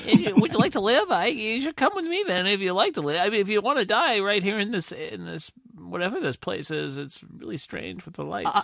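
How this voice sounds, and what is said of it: Imitates another person's voice. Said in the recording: “I do an impression ... I had no idea Woody Allen was in this film.”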